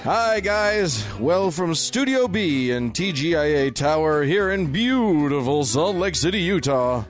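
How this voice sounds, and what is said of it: Announcer voice. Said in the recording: “I use my announcer voice for that.”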